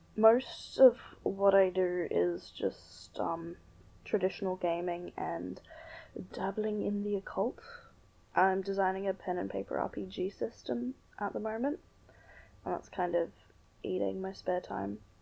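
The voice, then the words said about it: Australian accent. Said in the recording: “You could probably tell from the whole accent thing that I'm Australian.”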